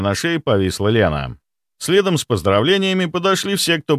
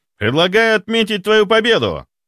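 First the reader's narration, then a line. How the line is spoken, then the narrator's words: Shout. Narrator (Russian): выкрикнул Ваня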